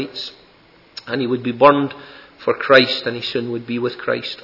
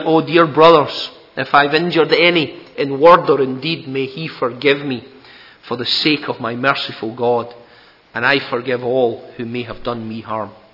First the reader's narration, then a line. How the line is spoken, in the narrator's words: he called out